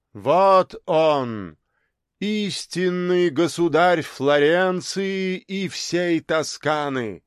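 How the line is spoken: Loud declamation. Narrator (Russian): громко продекламировал кудесник Джованни де Фаустино

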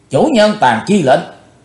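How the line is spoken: Cold shout. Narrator (Vietnamese): Chí Tôn lạnh lùng quát

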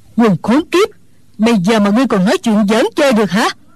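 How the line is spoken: Old woman's angry shout. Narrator (Vietnamese): Mụ già tức giận quát lên

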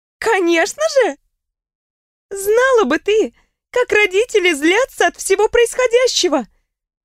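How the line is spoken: Loud laughter. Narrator (Russian): В голос рассмеялась Риона

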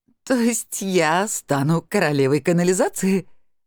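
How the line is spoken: Bursting out laughing. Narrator (Russian): расхохоталась я

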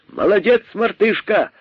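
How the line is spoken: Shouting. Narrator (Russian): закричали кролики

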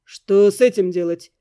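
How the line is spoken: Gloomy question. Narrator (Russian): мрачно спросил Эддингтон

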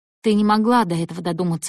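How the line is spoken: Soft. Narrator (Russian): мягко сказал Тейтум

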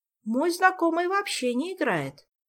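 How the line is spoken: Uncertain objection. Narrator (Russian): неуверенно возразила Ольга

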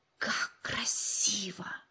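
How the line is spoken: Admiring whisper. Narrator (Russian): восхищенно прошептал Джо

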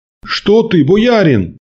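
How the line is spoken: Frightened. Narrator (Russian): испуганно произнес купец

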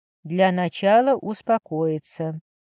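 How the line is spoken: Calm. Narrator (Russian): спокойно сказал мужчина

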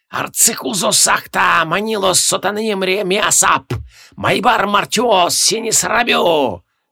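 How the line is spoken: Hissed incantation. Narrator (Russian): Прошипел Имарек

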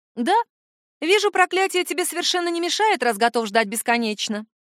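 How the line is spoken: Brisk, cheerful. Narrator (Russian): бодро заключила я

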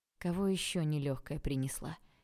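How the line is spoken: Quiet question. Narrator (Russian): тихо спросил Олег

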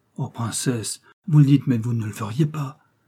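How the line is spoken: Official crying out. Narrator (French): s'écria l'un des attachés au ministère

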